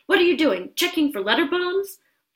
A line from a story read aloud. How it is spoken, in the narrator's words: He chuckled at his own joke